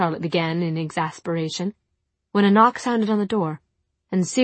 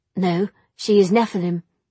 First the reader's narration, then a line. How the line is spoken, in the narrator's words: said Cyril